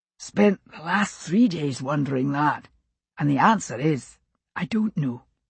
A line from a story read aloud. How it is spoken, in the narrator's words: Roger's throat was clogged from the cold, and he coughed and spat, resuming hoarsely